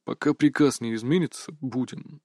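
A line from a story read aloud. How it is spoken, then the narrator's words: Plain. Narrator (Russian): ответил Иван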